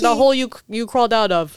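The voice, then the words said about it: Put-on Russian accent. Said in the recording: “I like your Russian accent.”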